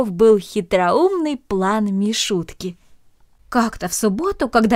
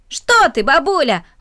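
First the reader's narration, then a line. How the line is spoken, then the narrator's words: Exclaiming child. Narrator (Russian): воскликнул мальчик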